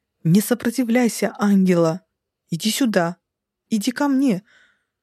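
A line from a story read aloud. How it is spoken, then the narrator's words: Near yell. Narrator (Russian): Почти завопил он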